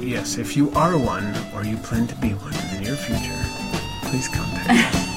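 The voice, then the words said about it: Funny announcer voice. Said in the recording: “That was your funny announcer voice.”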